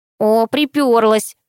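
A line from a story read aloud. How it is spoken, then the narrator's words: Angry remark. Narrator (Russian): сердито заметила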